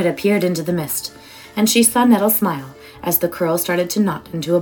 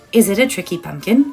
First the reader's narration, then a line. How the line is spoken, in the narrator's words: asked Noita